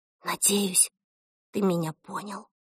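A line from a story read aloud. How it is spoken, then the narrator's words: Whisper in secret language. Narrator (Russian): шепнула Эльса на тайном языке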